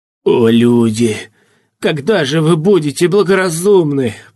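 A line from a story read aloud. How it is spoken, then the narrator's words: Groaning. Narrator (Russian): простонал Эрзи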